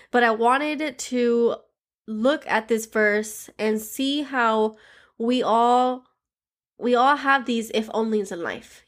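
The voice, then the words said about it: Stuffy, congested voice. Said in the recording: “I am battling a cold, so if I sound a little stuffy”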